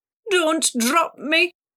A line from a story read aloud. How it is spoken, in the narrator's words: Salty begged